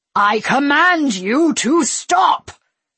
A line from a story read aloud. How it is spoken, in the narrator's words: the Padawan roared